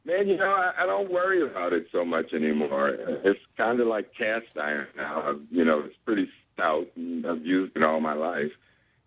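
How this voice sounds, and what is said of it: Slightly raspy voice. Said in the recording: “I'm a little raspy this morning because I worked last night”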